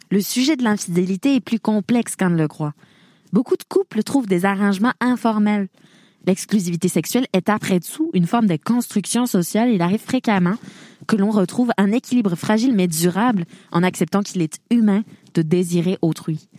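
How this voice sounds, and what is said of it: Put-on southern French accent. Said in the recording (French): “maintenant je suis de l'accent du Sud ... m'a fait bloquer dans un accent.”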